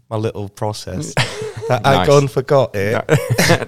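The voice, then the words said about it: Convincing put-on accent. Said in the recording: “Nice accent. ... Wow, that's good. ... That's fucking good.”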